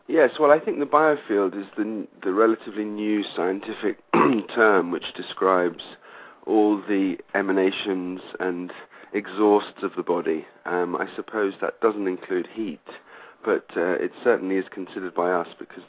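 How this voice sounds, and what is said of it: Slightly gravelly morning voice. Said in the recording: “my voice sounds a little bit biofield gravelly”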